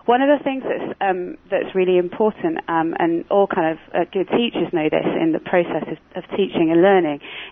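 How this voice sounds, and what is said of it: Non-Canadian accent. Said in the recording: “You can probably tell from my accent that I'm fairly new to Canada.”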